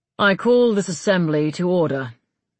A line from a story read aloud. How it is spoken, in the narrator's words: he said gravely, not raising his voice